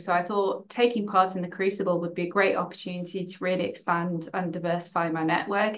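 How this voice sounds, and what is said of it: English accent. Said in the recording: “as you may have guessed from my accent, I'm not from Scotland, I'm English”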